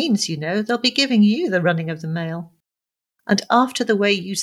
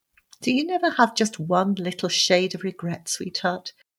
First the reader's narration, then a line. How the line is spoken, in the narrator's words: He asked wistfully with a sick man's fancy